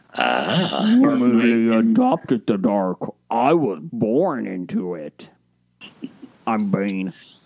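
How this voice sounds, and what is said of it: Poor Bane villain voice impression. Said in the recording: “God, terrible. That might be the worst Bane impersonation I've heard.”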